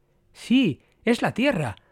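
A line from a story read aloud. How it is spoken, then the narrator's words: Exclaiming. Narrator (Spanish): exclamó Brian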